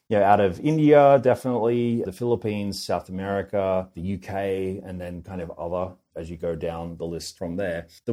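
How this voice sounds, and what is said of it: Australian accent. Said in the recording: “a strong representation out of Australia, which is probably owing to, you know, my funny accent”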